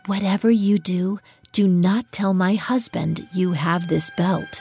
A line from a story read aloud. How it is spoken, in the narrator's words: whispered